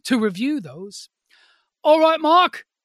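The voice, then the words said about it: Put-on Cockney accent. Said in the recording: “I don't know why I went into kind of a Cockney accent there”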